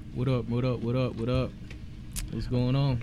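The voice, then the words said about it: Deliberately deepened low voice. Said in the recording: “put on the Barry White voice. ... I got a high pitched voice. I got to deepen up just a little bit.”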